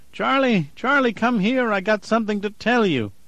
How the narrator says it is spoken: After 3 hours of this, she pleaded

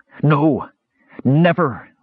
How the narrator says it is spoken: Raistlin cried

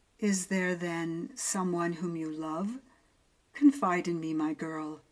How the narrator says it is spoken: his manner was calm, his voice blander than ever, as he asked

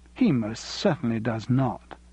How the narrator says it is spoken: said Louise firmly

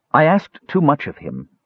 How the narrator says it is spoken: she tried to say evenly, though Tanis could clearly see the hurt in her eyes

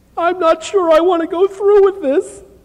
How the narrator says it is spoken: she blurted out between sobs

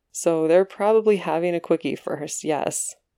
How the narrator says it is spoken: Patrick says with a laugh

